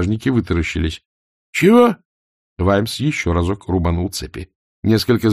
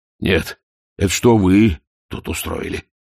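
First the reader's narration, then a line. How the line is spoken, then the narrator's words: Grumbling. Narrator (Russian): проворчал Ваймс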